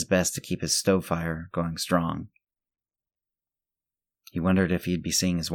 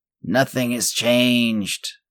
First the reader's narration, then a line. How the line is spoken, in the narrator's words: Sam croaked